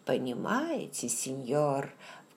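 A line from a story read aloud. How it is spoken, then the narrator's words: Insinuating, smiling question. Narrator (Russian): вкрадчивым тоном спросил мсье Форе, не переставая улыбаться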